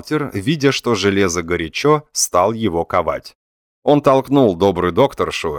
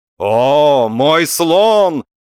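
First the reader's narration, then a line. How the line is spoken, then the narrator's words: Defiant shout. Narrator (Russian): вызывающе крикнул берлага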